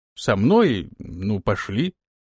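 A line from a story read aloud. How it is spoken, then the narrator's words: Uncertain, at a loss. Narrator (Russian): неуверенно произнес он, не зная, как выпутаться из создавшейся ситуации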